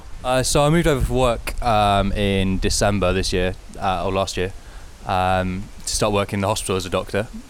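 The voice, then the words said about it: British accent. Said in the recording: “that accent, from the UK. You're not an Aussie.”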